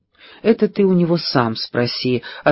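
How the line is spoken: Forced calm. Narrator (Russian): ответила Пэрис по возможности спокойно

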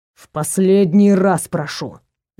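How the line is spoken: Growling. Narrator (Russian): зарычал Нак

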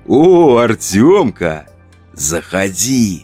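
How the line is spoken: Cheerful whisper. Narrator (Russian): прошептал он весело

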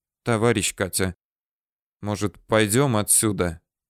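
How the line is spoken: Timid suggestion. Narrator (Russian): робко предложил он

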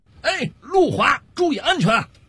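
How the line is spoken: Calling out from behind. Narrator (Chinese): 小五就在后头喊了一句

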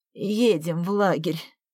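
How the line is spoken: Weak-voiced command. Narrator (Russian): слабым голосом скомандовала Наталья Борисовна

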